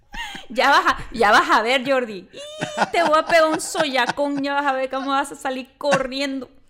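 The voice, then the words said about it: Put-on Tabasco Mexican accent. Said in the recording (Spanish): “aquí en Tabasco es como ... ¿Qué otro acento? ... yo empiezo a hablar como de allá”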